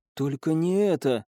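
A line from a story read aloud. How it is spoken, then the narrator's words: Whisper. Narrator (Russian): прошептала Элина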